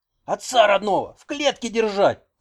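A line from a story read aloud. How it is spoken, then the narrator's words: Yelling. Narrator (Russian): орал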